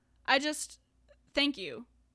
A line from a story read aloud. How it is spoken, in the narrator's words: Neil stutters